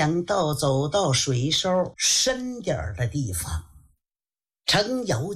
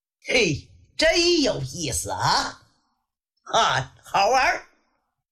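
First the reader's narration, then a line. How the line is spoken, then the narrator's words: Joyful shout. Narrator (Chinese): 敬德高兴地喊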